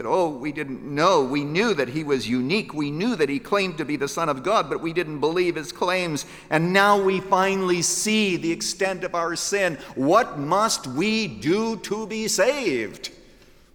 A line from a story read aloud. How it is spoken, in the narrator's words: They cried up to God